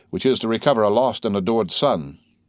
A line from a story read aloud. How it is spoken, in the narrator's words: said the Major with a sigh